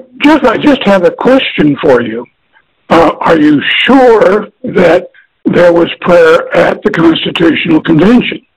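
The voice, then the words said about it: Voice strained and unwell-sounding. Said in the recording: “Forgive my voice. ... My allergies have kicked in.”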